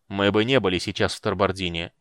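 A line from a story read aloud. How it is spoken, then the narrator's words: Icy tone. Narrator (Russian): ледяным тоном закончил его фразу Стурм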